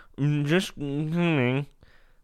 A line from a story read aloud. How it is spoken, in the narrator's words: He tried to say something, but all he could manage was a muffled grunting noise which sounded like